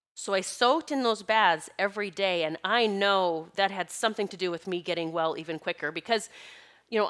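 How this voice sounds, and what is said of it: Slightly nasal congested voice. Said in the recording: “I sound a little nasally, I can hear it in my voice,”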